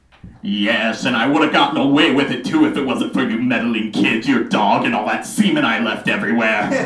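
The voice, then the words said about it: Cartoon villain character voice. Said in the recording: “my impression of the worst Scooby-Doo villain”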